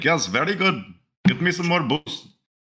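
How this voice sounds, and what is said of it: Put-on Indian accent. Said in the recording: “why are you giving this guy an accent?”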